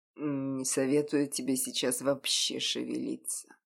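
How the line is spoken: Hoarse growl. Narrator (Russian): с хриплым рыком произнес Ян

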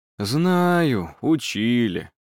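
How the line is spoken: Repentant sigh. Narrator (Russian): покаянно вздохнул Виттелли

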